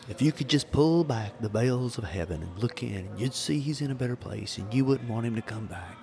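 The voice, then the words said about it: Southern preacher character voice. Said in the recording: “I'm going to go into my little southern preacher voice.”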